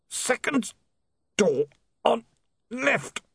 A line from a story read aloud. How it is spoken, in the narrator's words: the man groaned